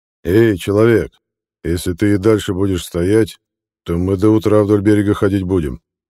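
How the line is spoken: Deep-voiced giant interrupting. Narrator (Russian): пробасил великан Дакхим, перебив Ильшата

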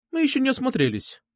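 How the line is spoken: Sharp interjection. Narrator (Russian): довольно резко вставила Настя

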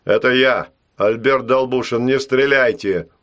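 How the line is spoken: Shouted. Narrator (Russian): крикнул он

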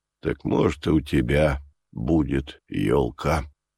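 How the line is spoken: Firm, husky, tender. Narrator (Russian): решительно произнес майор, и его сиплый басок зазвучал нежностью

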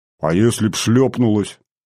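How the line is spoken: Grumbling. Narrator (Russian): заворчал я

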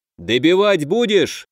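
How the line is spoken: Shouted out. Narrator (Russian): выкрикнул все тот же воин

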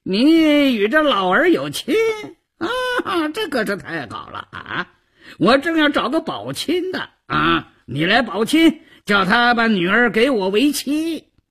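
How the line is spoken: Cheeky, wheedling. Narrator (Chinese): 赵都巡 嬉皮笑脸的胡搅蛮缠

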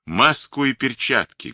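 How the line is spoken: Loud shout. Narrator (Russian): громко крикнул он

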